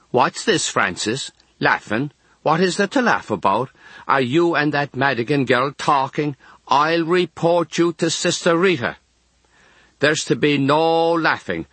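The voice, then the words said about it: Stern voice, heavy Kerry accent. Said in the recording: “She's a very stern nurse from the County Kerry ... in a heavy Kerry accent”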